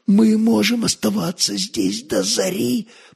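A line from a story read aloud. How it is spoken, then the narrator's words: Whisper in ear. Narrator (Russian): прошептал он на ухо любимой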